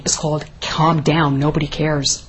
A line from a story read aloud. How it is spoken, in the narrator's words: the officer replied sternly